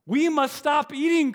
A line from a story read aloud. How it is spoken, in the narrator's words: cried Toad as he ate another